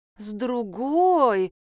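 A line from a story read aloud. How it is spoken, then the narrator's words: Disappointed drawl. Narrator (Russian): разочарованно протянула Надежда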